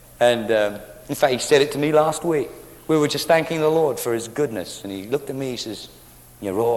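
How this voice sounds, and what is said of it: Usual voice. Nothing is said of it.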